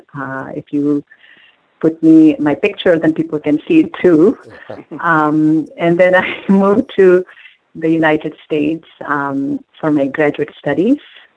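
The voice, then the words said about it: Indian accent. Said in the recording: “I was born and raised in India, as you can tell from my accent.”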